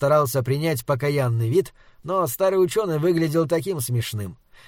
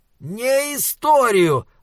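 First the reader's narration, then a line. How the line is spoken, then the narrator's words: Roar. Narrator (Russian): взревел Моргенс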